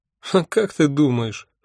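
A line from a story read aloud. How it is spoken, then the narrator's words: Snorted. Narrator (Russian): фыркнула Афина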